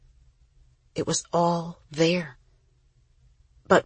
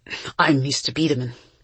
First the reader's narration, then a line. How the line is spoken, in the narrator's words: said, his voice rough